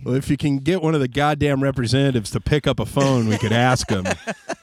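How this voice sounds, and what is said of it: Warmed-up morning radio DJ voice. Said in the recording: “you're lubed up, like you're warm ... I've got my morning yuck yuck voice on ... I noticed you doing your radio voice”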